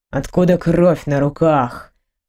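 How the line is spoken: Executioner's growl. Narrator (Russian): прорычал палач

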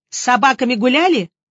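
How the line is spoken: Barking snap. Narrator (Russian): я рявкнула

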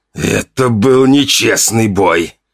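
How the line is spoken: Wheezed hoarsely. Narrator (Russian): прохрипел он

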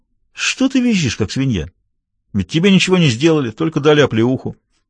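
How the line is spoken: Said calmly. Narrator (Russian): кто-то спокойно сказал

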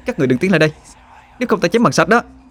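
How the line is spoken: Shouting. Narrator (Vietnamese): Họa Hương hét lên

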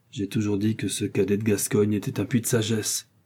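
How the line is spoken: Murmured. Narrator (French): murmura Athos

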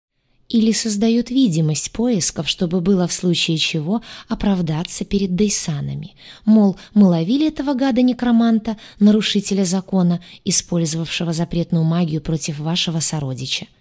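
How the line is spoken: Plain answer. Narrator (Russian): ответила она ему

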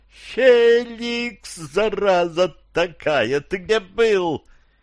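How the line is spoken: After shrieking, finally coherent. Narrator (Russian): от перестающей визжать и орать блондинки, прозвучало

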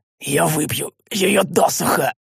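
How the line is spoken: Hoarse rasp. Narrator (Russian): прохрипел я, отчасти вернув контроль над губами

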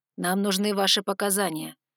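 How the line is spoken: Soft bass reply. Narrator (Russian): негромким басом ответил стальной

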